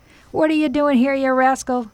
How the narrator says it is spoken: cried the butcher angrily

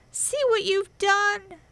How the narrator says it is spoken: she screamed

